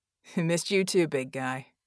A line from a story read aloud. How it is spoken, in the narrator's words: Red chuckled